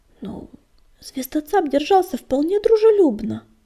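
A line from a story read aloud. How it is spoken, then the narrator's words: Soothing babble. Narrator (Russian): пролепетал Огнегриф, пытаясь успокоить ее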